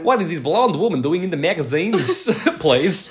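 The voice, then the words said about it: Put-on Russian-Italian accent. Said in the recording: “She sounds Russian sometimes. ... It's a Russian accent. ... But it's not Russian, it's a Russian-Italian accent.”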